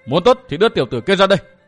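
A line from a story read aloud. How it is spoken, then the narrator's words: Shouting. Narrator (Vietnamese): Phụ nhân che mặt quát lên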